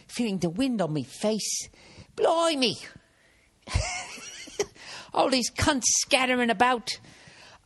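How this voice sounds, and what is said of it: Put-on English accent. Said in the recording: “she's saying all this in an English accent.”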